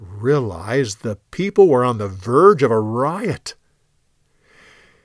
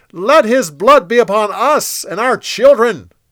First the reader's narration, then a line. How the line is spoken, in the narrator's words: They shouted